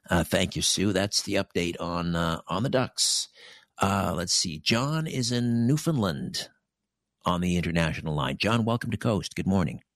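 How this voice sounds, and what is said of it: Polished radio broadcaster voice. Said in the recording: “you have a great radio voice”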